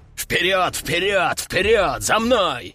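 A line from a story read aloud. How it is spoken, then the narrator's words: Berserker roaring. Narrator (Russian): рычал берсерк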